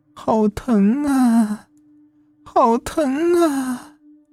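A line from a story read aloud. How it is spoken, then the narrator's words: Old woman crying out. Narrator (Chinese): 那老奶奶边哭边叫道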